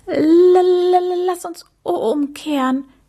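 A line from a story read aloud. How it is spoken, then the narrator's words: Stuttering. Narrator (German): stotterte er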